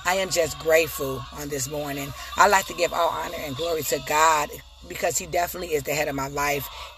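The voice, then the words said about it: Rough, congested voice. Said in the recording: “My voice is a little shaggy this morning. ... this weather had my, my allergies and sinuses so just discombobulated”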